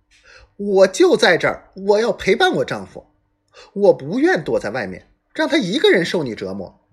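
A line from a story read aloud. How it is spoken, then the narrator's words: Fierce woman's shrill shout. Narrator (Chinese): 这厉害女人嗓门尖锐的喊道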